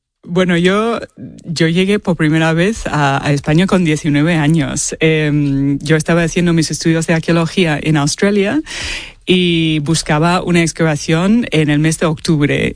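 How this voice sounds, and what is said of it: Australian accent speaking Spanish. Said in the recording (Spanish): “tienes un acento australiano, vamos, pero vamos, te lo hemos notado a la primera”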